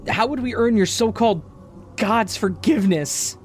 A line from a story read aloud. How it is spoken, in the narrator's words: She shouted at me from across the room